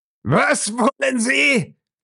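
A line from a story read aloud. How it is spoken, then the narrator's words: Roar, then loud laughter. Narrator (German): brüllte und brach in ein schallendes Gelächter aus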